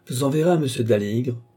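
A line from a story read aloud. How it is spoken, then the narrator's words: Gruff. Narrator (French): dit Rafté d'un ton bourru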